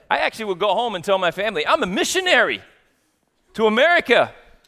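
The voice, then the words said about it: Australian accent. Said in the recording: “The accent thing, it's a real game changer... we kind of tear people down a lot in Australia because of their accents... what does an Australian think is a great accent?”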